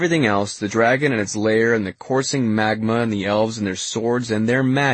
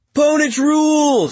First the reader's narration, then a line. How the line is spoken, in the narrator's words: somebody shouts